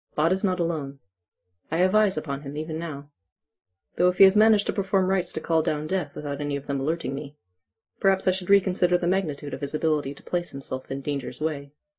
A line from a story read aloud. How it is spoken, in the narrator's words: Silas just said calmly